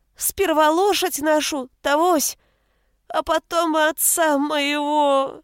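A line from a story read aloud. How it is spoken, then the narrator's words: Choking on bitter sobs. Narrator (Russian): Окончание фразы захлебнулось в горьком рыдании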